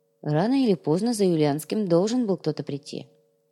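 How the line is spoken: Calm reply. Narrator (Russian): спокойно ответил отец Алексей

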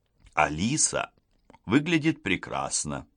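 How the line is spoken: Quiet. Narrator (Russian): тихо говорит она Гарриет

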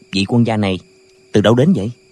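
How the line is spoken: Quiet question. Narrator (Vietnamese): hỏi khẽ

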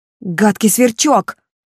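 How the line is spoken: Angry shout. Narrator (Russian): закричал разгневанный Ландри

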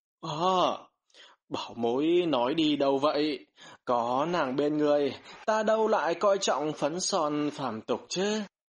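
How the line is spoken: Smiling middle-aged man. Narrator (Vietnamese): Tu sĩ trung niên mỉm cười

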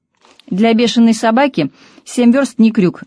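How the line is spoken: Barking snap. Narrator (Russian): рявкнула

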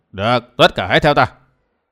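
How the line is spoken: Lowered voice. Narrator (Vietnamese): Tà Kiếm hạ giọng nói

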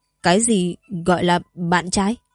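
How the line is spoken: Trembling restrained question. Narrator (Vietnamese): Mộc Vấn Trần cả thân người đều run run như đang kiềm nén điều gì đó, hỏi

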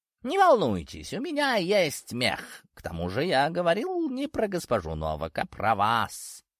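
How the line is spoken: Purring cat. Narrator (Russian): продолжал мурлыкать кот

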